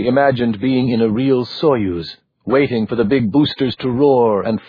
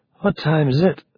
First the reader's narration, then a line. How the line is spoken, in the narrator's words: she asked, her voice heavy with sleep